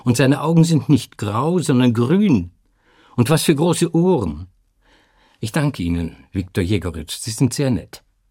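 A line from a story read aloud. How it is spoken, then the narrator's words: Calling out repeatedly. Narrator (German): rief Sinaida immer wieder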